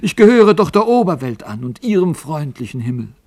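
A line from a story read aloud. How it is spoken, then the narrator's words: Called out. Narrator (German): rief er dem Alten zu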